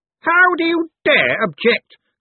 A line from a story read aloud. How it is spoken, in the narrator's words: Cosmo spat